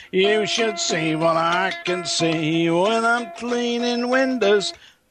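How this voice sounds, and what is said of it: Sung imitation of another person's voice. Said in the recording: “my impersonation of”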